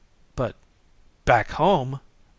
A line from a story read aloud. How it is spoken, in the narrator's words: began Louis hotly